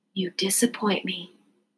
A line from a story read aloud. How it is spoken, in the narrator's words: She whispered